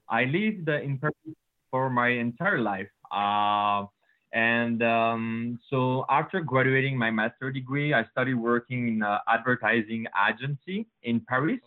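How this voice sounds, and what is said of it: French accent. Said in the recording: “as you can hear with my accent, guys, I'm French”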